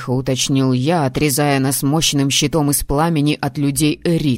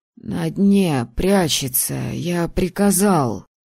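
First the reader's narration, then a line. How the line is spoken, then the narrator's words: Hoarse wheeze. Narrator (Russian): прохрипел Алекс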